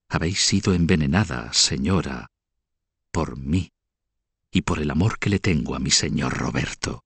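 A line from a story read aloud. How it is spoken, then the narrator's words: Whisper. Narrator (Spanish): susurró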